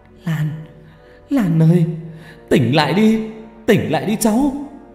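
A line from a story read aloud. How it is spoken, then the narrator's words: Tearful wailing. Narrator (Vietnamese): Hà gọi kêu gào trong nước mắt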